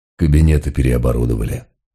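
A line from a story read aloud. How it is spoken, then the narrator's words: Breathless mutter. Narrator (Russian): пробурчал, задыхаясь, Мегре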